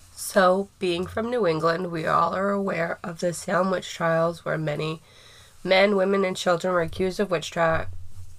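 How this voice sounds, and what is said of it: Rough, sick-sounding voice. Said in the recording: “I'm sick, very sick ... just like a flu ... sorry for my voice. It is rough.”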